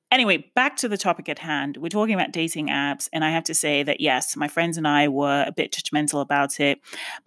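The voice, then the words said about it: Hybrid mixed English accent. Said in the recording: “I sound weird. I'm completely aware of it. ... it's called a hybridized accent”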